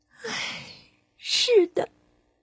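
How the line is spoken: Sighing. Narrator (Chinese): 灰姑娘叹了口气说

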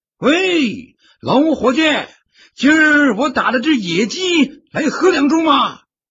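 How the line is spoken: Shouting from afar. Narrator (Chinese): 王猎户在山头大声喊道

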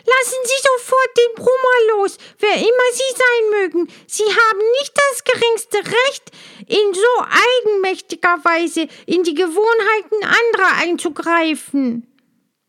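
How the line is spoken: Loud impulsive call. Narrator (German): Ohne Besinnen rief sie laut

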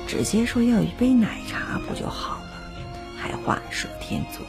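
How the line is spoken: Muttering. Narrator (Chinese): 那个时候的你在我背后嘀咕着

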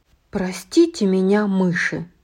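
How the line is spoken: Sighing. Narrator (Russian): вздохнула Флаттершай

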